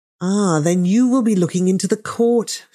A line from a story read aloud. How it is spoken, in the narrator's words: she sighed